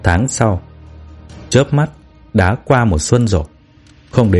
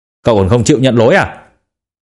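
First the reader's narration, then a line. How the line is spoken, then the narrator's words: Angry. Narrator (Vietnamese): Tiểu Mạch tức giận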